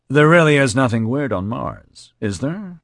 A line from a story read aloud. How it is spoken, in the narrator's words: he said in a distracted voice